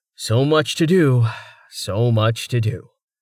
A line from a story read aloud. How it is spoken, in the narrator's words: Rain said with a sigh